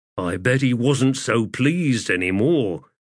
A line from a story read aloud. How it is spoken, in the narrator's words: Stormy said with a grunt